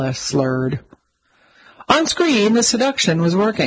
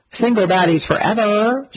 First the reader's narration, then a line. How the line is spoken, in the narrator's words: she cried